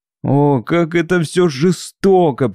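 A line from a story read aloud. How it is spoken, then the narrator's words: Tearful lament. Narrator (Russian): причитала я сквозь слезы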